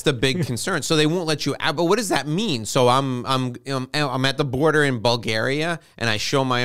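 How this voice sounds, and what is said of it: Usual voice. Nothing is said of it.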